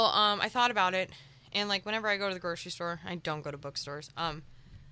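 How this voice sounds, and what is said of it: Usual voice. Nothing is said of it.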